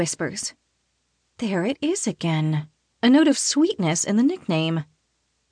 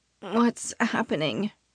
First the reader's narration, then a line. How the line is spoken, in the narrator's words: croak